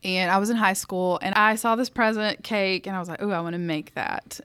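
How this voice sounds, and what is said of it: Southern US accent. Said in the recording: “I grew up in the South, as if my accent didn't give me away”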